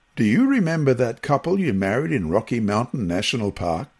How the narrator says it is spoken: he said

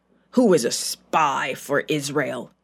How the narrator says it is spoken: he growled at his generals

